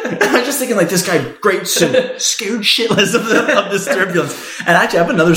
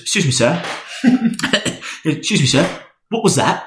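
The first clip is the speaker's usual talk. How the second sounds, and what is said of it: Put-on British accent. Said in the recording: “British accent.”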